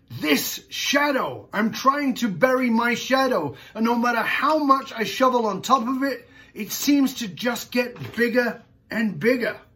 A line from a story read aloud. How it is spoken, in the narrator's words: He snapped back